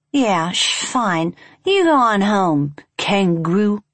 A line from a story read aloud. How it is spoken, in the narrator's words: slurred